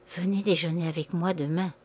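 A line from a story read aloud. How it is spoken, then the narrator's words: Barely audible murmur. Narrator (French): Elle murmura si bas qu'il entendit à peine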